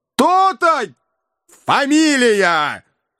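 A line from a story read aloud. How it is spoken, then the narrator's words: Anguished shout. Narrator (Russian): в тоске крикнул Иван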